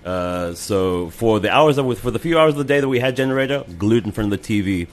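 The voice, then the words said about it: Slight American twang. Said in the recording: “this lovely international neutral accent ... You have a slight American twang.”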